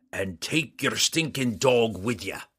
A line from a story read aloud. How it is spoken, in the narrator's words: Bruner roared